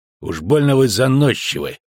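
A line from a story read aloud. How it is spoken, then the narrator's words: Grumbled. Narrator (Russian): буркнул Шелдон Скакс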